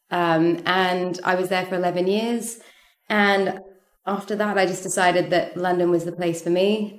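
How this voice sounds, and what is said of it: Slight accent. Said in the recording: “hence the little accent that I have”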